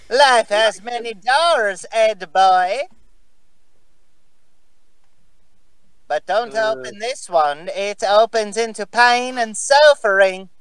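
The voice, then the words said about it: Cartoon character voice with odd accent. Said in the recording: “God, what is that accent? ... He's trying to do Rolf.”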